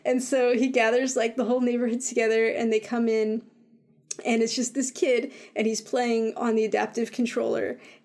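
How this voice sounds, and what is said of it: Choked-up, emotional voice. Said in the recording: “I'm going to get choked up. ... I'm getting so worked up about this”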